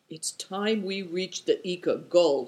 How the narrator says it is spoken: said Affliction sullenly

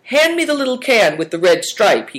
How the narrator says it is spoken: he cried

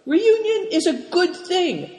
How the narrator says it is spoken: cried Big Tiger

